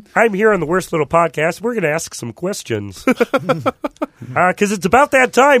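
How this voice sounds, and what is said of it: Kermit the Frog character voice. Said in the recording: “Kermit the Frog here. ... Thank you, Kermit.”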